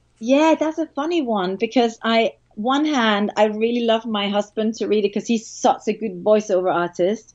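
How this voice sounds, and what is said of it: Danish accent. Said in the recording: “my Danish accent”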